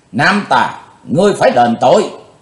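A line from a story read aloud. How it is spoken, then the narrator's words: Shout. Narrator (Vietnamese): Trường Hận thư sinh quát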